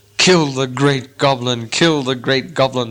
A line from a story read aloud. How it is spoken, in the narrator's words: he chuckled fiercely to himself